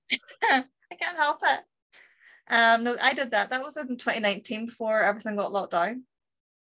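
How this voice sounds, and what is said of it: Speaks with a regional accent. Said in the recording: “Say that again in your accent.”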